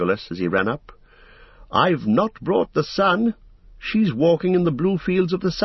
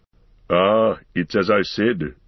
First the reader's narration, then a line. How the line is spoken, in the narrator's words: growled Gimli